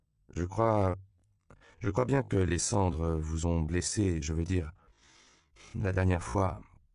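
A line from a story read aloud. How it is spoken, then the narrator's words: Cautious wary tone. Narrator (French): commença-t-il d'un ton circonspect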